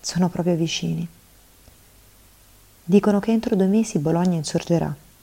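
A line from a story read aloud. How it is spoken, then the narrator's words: Sigh, then speaking. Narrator (Italian): Sospirò, poi disse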